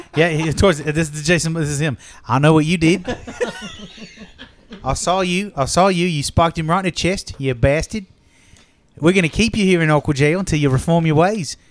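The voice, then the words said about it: Put-on Australian accent. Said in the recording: “Can Jason Momoa do an Australian accent?”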